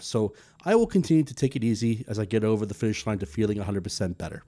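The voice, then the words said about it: Voice still slightly sick-sounding. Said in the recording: “recover from a very nasty virus ... As you can hear in my voice, I am considerably better, but not totally all the way there”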